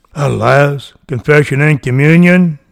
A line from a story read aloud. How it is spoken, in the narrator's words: exclaimed the dying man